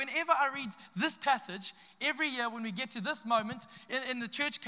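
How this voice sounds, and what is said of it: Usual voice. Nothing is said of it.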